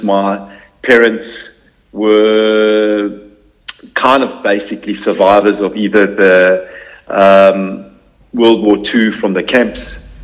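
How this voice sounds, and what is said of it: South African accent. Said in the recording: “You can hear by my accent. Born in South Africa.”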